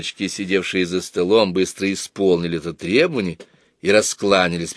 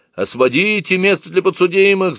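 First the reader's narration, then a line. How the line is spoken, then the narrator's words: Distant shout. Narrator (Russian): закричали из другого угла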